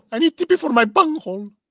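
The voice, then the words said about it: Cartoon character voice impression. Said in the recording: “Bunghole. Like an Indian woman. ... That was fantastic. That was great. ... Cornholio, yeah.”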